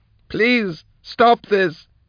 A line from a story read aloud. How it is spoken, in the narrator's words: she wailed